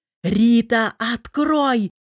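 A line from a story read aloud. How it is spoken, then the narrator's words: Roared. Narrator (Russian): взревел Артем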